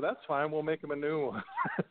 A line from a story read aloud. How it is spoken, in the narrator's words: my dad would laugh and just say